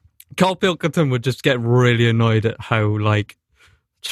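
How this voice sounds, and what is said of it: Usual voice. Nothing is said of it.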